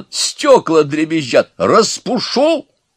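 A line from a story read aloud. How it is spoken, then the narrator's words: Old man's barking snap. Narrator (Russian): рявкнул старичок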